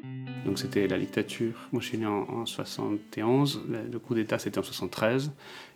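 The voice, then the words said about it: Lilting Uruguayan accent in French. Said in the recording (French): “son pays natal, l'Uruguay ... ce délicieux accent chantant”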